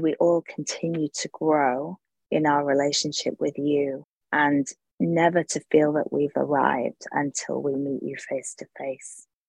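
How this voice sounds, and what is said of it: British accent. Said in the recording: “Maybe it's the British accent”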